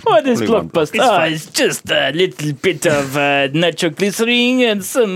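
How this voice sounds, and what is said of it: Put-on Russian accent. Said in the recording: “This is my Russian accent”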